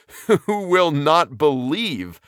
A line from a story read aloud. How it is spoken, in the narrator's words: laughed Laidlaw shortly, yet interested in spite of his thinly veiled contempt